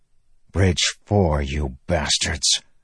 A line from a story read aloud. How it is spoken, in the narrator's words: Moash growled